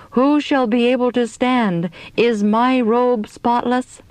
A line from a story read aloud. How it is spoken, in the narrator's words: Then we all cried out